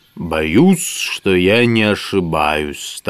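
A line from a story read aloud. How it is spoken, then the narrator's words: Solemn wizard. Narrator (Russian): торжественно проговорил волшебник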